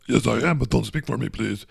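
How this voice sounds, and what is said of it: Put-on character voice. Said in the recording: “doing this voice”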